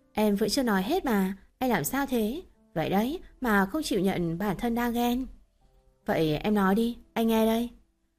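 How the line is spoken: Bursting into loud laughter. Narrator (Vietnamese): Phì cười lớn, cô nói

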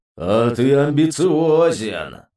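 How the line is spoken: Deep bass voice. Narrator (Russian): пробасил демон

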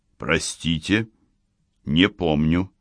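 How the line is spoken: Said coldly. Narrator (Russian): холодно произнес Хонда

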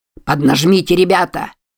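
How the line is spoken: Loud bark over shouting. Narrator (Russian): рявкнул Лайдж, перекрикивая дозорного

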